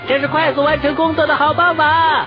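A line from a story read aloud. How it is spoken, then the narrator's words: Shouting. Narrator (Chinese): 詹姆士大叫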